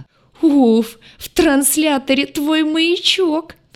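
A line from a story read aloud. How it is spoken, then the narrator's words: Sobbing. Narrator (Russian): всхлипнул лагартианин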